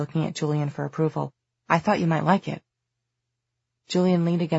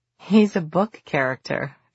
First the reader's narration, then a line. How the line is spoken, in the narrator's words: Drew said, laughing